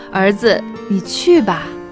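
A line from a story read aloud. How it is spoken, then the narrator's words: Gratified, smiling. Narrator (Chinese): 欣慰地笑了，说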